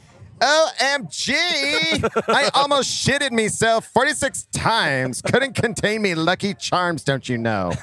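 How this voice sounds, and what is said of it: Valley girl voice mixed with Irish. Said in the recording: “a Valley girl who lost her Irish accent ... An Irish Valley girl.”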